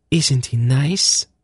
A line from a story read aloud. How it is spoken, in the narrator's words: Zenedra murmured